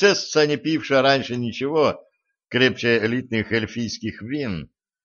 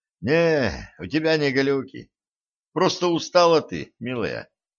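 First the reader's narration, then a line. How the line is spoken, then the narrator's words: Heavy sigh. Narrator (Russian): тяжко вздохнул стажер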